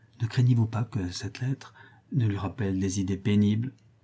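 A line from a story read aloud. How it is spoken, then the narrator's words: Whispering. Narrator (French): dit tout bas Clémence à Rodolphe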